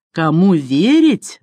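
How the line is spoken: Angry yell. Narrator (Russian): завопил мистер Джонсон, окончательно отбросив напускное добродушие

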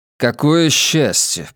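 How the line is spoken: Grumbled. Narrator (Russian): пробурчал я

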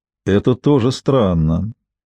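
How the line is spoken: Gloomy remark. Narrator (Russian): заметил, мрачно

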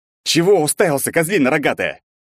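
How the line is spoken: Rough bark. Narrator (Russian): рявкнул я

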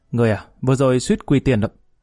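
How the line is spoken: Angry. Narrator (Vietnamese): Lý Kỳ giận dữ, tức giận nói

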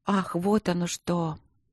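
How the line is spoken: Muttered. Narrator (Russian): пробормотала Марина

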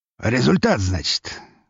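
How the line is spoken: Skeptical snort. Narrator (Russian): хмыкнул граф

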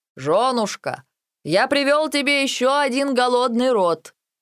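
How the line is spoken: Very loud shout. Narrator (Russian): крикнул с порога так громко

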